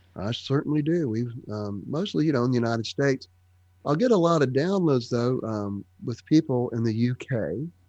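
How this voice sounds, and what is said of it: Georgia American accent. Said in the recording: “a Georgia accent”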